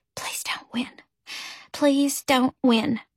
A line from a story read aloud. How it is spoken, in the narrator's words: I whispered to myself